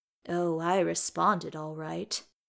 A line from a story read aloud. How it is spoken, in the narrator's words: he purred at Beaufort